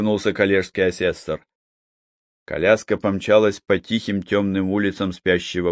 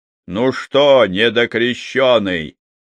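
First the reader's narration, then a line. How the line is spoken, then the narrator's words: Shouting. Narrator (Russian): крикнул Лыков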